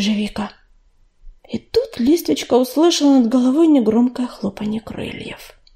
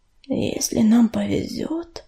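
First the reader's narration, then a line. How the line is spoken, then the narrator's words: Barely audible. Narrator (Russian): еле слышно проговорил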